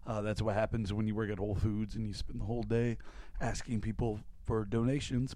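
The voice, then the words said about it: Hoarse, worn-out voice. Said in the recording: “I am losing my voice ... I'm also getting a little sick”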